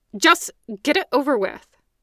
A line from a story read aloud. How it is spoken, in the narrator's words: snapped